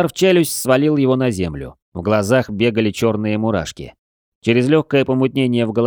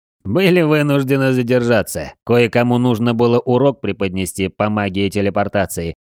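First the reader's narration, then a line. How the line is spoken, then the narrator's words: Chuckling. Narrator (Russian): хохотнул Эрранд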